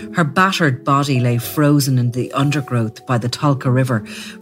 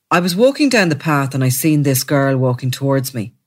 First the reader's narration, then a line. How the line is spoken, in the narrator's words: he said, speaking in a flat tone